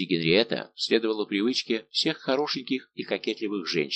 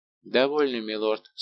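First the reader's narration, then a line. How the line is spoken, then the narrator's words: Woman speaking dryly. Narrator (Russian): сказала Генриетта сухо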